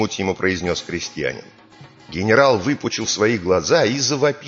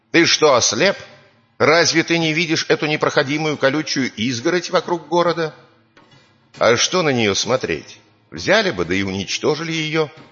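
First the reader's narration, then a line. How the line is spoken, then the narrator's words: Angry shout. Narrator (Russian): Покраснел генерал от злости и крикнул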